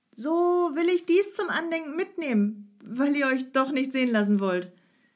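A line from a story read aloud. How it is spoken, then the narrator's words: Calling out. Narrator (German): rief Peter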